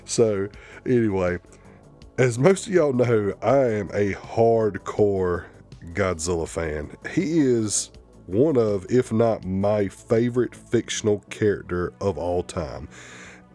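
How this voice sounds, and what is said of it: Southern drawl, hick accent. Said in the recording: “southern drawl and my little hick accent”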